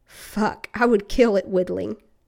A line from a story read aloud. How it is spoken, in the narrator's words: Steve wheezed